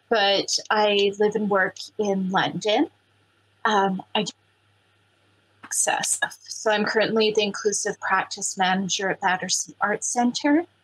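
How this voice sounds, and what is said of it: Canadian accent. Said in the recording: “I'm originally from Treaty 6 territory in Canada, hence the accent”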